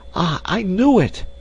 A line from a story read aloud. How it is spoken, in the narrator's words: she exclaimed